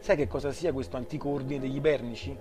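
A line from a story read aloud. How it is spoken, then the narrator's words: Plain question. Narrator (Italian): chiese a Molly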